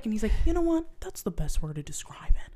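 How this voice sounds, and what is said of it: Imitates another person's voice. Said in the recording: “I love your Owen Wilson impression ... I try so hard to do a good impression ... you have to keep your mouth kind of closed”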